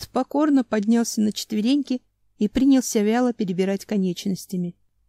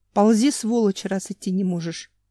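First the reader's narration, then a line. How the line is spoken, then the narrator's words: Growled. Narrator (Russian): прорычал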